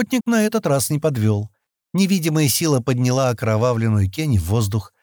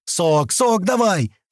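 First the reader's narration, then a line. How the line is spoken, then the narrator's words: Cracking-voiced shout. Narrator (Russian): срывающимся голосом закричал он Шати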